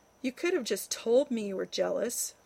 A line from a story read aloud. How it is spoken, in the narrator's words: Rodney sighed